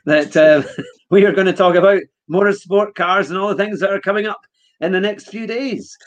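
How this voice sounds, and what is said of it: Scottish accent. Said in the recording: “it's only me that can do the proper Scottish accent”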